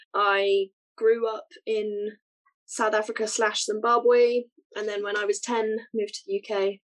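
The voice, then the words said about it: Very British accent. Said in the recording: “my very British accent.”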